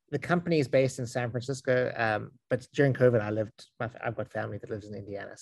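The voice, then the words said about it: South African accent. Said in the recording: “accent is I'm South African”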